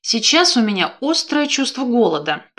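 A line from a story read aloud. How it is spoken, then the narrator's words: Grumbling. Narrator (Russian): проворчала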